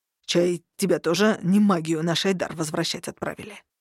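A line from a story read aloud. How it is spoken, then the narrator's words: Venomous hiss. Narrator (Russian): ядовито прошипел коротышка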